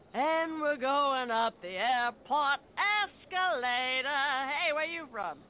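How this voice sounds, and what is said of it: Traveling lounge singer character voice. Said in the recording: “this is my impression of a traveling lounge singer”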